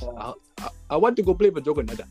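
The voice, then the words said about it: Put-on accent imitating someone. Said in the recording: “why are you gonna put that accent, bro?”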